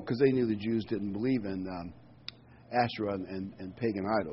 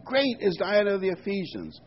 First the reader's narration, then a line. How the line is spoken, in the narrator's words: they were full of wrath and cried out, saying